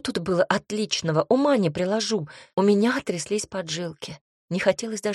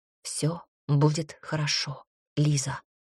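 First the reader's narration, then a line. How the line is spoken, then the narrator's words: Close whisper. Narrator (Russian): шепнул голос Милоша совсем рядом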